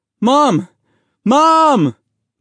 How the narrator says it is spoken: Mahmoud yelled

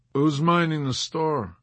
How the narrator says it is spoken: Yossarian smiled feebly at McWatt, feeling ill, and asked

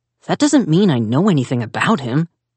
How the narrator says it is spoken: Zack sputtered

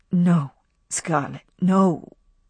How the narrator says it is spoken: he said in a low voice

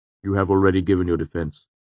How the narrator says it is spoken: he said firmly

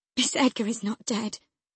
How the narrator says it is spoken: I gasped

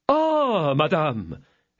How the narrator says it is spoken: exclaimed he

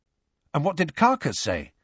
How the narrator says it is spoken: asked Harry eagerly

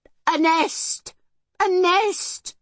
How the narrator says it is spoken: she shouted

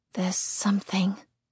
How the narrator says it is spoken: I confirm quietly

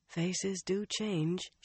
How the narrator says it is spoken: she murmured

